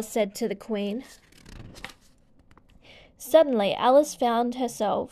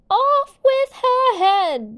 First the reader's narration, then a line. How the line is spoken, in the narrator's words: the Queen shouted once more